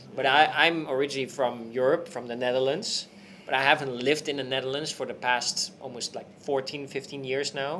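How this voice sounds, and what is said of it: European non-native English accent. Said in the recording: “you can already maybe hear by my voice and accent”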